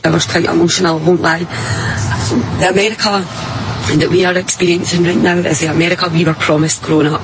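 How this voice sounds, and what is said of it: Scottish woman's accent. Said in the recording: “She's a Scottish woman ... she might be a little hard to understand at times”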